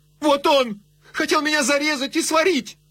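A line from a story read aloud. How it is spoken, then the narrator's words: Shouted. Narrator (Russian): она крикнула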